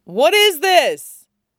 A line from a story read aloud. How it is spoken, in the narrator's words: Gendry could hear someone shout